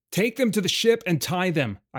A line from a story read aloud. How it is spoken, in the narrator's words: I shouted at Gorin